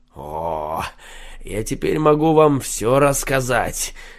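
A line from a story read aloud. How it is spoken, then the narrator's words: Mysterious tone. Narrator (Russian): каким-то загадочным тоном ответил Шульца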